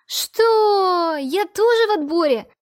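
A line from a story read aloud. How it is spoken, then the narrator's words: Angry shouting. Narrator (Russian): кричала и спрашивала гневным голосом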